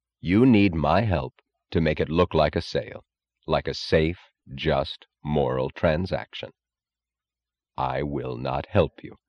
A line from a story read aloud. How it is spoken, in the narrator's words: Reardon said evenly, in the grave, unstrained tone of finality